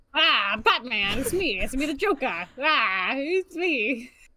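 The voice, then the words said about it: Joker character voice impression. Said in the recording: “your Joker impression ... That's my Joker.”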